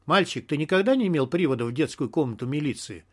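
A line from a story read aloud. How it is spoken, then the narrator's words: Snide question. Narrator (Russian): совершенно ехидно спросил Сидорович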